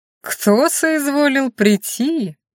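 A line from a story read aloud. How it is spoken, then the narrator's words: Mocking singsong. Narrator (Russian): насмешливо пропел Викон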